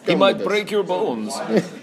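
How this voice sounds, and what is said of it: Russian accent. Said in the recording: “I can kind of do a good Russian accent.”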